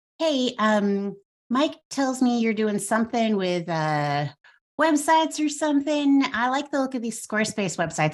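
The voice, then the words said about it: Thick Nashville Southern accent. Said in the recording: “I'm in Nashville, so my accent's getting a little thick.”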